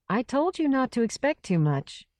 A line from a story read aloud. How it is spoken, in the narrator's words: said